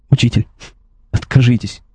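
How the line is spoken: Sobbing. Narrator (Russian): всхлипнул он

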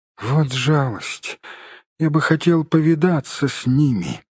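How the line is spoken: Sleepy, hobbit. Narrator (Russian): сонно проговорил хоббит

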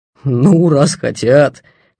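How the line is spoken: Mocking. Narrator (Russian): насмешливо сказал он

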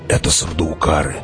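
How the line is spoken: Whisper. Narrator (Russian): шепнул Хават

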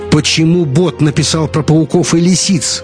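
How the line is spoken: Shouted out. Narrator (Russian): выкрикнул Ник

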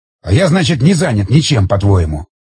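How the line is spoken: Angry growl. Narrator (Russian): Зло прорычал Тигран

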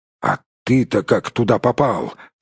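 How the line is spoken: Strained, forced out. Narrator (Russian): выдавил Торин

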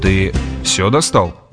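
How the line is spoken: Timid question. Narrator (Russian): робко поинтересовался Грегор

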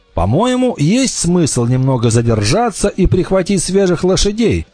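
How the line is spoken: Plain. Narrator (Russian): сказал Вольф

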